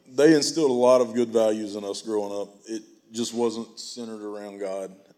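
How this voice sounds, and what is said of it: Emotional, choked-up voice. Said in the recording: “I'm starting to get a little emotional.”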